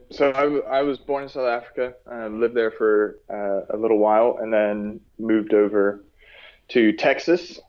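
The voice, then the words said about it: American-sounding English accent. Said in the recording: “the people will hear from the accent, you're not from the UK, you must be over in America”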